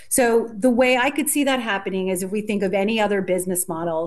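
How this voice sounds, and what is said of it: American accent. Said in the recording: “you can tell from my accent and from the US”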